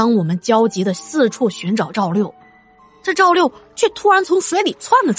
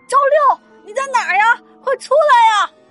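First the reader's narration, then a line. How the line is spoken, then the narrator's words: Group calling out. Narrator (Chinese): 我们一群人就开始沿着岸边一边走一边喊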